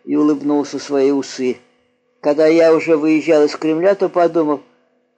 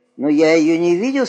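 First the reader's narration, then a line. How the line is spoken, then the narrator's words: Plain. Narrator (Russian): сказал я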